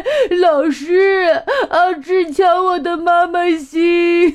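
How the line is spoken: Crying child. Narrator (Chinese): 小朋友哭着说

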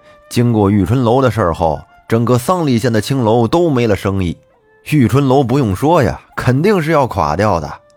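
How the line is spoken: Hearty laughter. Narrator (Chinese): 这个客人边说边哈哈大笑道

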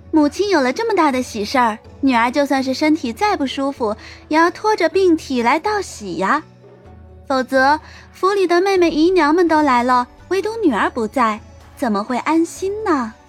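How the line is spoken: Blunt, unceremonious. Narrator (Chinese): 慕容羽…毫不客气的说道

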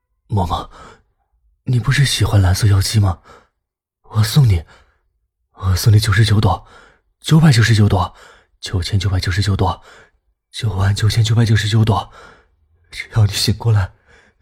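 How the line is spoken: Choked, tearful voice. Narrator (Chinese): 龚若轩他声音哽咽的说

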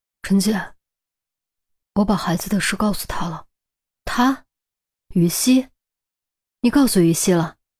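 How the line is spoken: Reluctant, through gritted teeth. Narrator (Chinese): 钟离本来不想说，但犹豫之后还是咬牙说了出来

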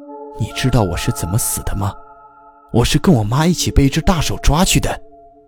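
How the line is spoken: Whisper in ear. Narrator (Chinese): 耗子 贴着楼主的耳朵小声地说了一句

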